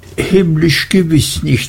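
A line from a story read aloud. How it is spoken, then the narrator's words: Laughing. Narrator (German): sagte sie lachend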